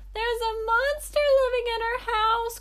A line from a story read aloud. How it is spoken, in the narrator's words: cried the robber to his friends